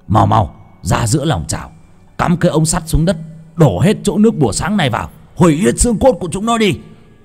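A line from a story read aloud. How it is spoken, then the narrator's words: Sudden shout. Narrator (Vietnamese): ông thầy Hải hét lên một tiếng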